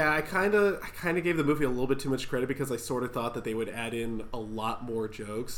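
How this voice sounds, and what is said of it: Usual voice. Nothing is said of it.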